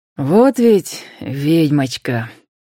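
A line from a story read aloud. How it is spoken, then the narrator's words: Softly spoken. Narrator (Russian): произнес мягко Роман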